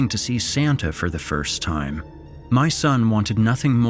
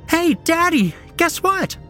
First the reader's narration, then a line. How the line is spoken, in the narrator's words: squealed